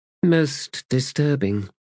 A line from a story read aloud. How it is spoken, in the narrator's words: Falash murmured